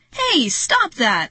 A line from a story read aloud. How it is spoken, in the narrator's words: Marty shout